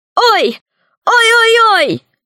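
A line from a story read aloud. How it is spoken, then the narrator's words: Shouting back. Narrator (Russian): закричала в ответ Кусандра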